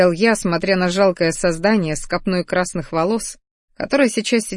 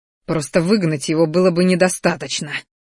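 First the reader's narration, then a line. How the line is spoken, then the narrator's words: Spiteful, through teeth. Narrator (Russian): Злобно процедил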